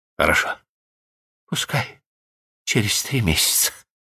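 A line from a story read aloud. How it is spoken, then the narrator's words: Tender whisper. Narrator (Russian): прошептала она, в то время как он нежно ее баюкал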